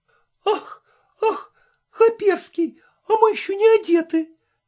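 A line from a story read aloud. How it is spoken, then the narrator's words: Girls shrieking. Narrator (Russian): взвизгнули некоторые из девиц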